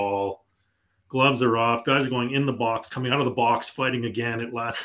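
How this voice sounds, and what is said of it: Usual voice. Nothing is said of it.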